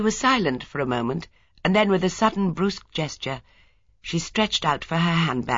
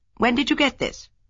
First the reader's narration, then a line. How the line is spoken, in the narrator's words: Craddock said sharply